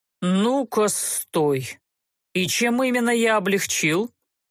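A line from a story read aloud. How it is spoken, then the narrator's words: Barely restrained angry growl. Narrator (Russian): Едва сдерживаясь, чтобы не взорваться, рыкнул герцог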